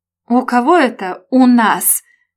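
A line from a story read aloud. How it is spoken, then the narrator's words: Barked through teeth. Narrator (Russian): рявкнул Женя сквозь зубы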